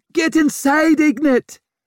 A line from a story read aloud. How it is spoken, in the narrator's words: screeched her mother